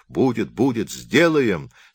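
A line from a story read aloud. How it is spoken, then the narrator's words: Mocking laughter. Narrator (Russian): смеялось все над плачущим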